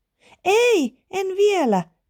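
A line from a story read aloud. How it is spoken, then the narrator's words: Shouting. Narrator (Finnish): Iida huusi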